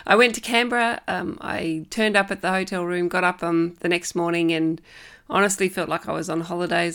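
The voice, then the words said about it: Deeper, bassier voice from illness. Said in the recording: “hear from my voice, it's a bit deeper, it's a bit more bassy than usual, because I overdid it and I got sick”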